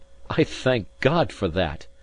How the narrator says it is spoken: cried I

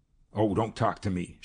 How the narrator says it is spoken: she snapped

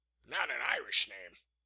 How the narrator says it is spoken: the captain snapped sharply

